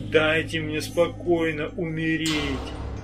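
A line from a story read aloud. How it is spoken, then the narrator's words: Moaning. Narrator (Russian): стонал кто-то еще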